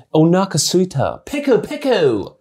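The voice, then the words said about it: Japanese spoken with British accent. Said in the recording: “The British guy speaking Japanese ... The accent”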